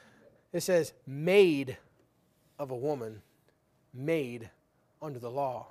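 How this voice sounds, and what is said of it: Usual voice. Nothing is said of it.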